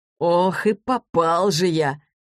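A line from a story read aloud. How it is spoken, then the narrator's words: Laughing. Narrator (Russian): рассмеялся Денис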